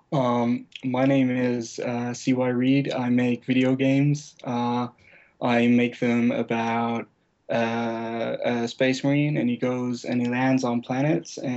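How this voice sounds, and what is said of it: Englishman doing American accent. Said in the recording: “give us an American accent real quick? ... Englishmen do American accents ... That's pretty good. That, that was bad.”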